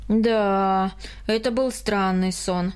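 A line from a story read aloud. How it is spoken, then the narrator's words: Sighing. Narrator (Russian): вздохнул Карл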